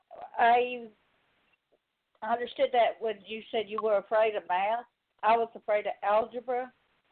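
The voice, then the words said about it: Slight Southern drawl. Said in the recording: “a little southern drawl”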